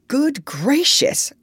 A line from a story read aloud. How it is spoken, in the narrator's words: cried the doctor